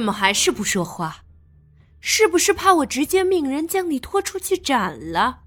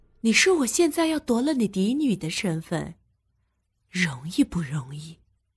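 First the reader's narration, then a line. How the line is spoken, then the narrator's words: Quiet, suddenly serious whisper. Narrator (Chinese): 他突的收起了脸上的笑容，伏在他耳边小声的说道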